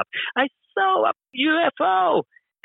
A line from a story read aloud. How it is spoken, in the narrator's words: I screamed out